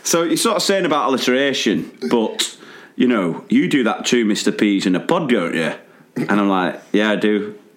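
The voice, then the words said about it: Put-on northern regional accent. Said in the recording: “it was sort of a bit bit further north than this... here's me and my accents again.”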